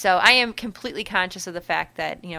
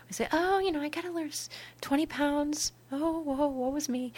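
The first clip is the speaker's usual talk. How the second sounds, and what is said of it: Mock whiny voice. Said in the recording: “I sound like a little whiner”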